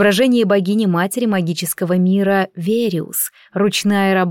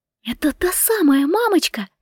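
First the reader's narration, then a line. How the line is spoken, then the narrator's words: Overjoyed disbelieving whisper. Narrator (Russian): прошептала я, не веря своему счастью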